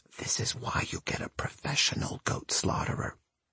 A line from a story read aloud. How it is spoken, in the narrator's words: my mother leans in and whispers